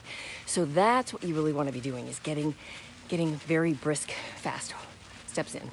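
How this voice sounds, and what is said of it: Slightly out of breath while talking. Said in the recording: “a tad bit out of breath as I'm talking here”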